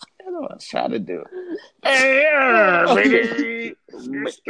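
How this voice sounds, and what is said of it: Usual voice. Nothing is said of it.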